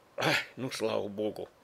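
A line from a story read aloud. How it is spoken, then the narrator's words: Relieved sigh. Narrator (Russian): облегченно вздохнул я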